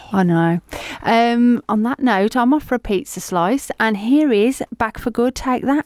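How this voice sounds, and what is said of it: Black Country twang, Nigella Lawson-like voice. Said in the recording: “you sound like Nigella Lawson? ... With a black country twang? ... Just a little bit”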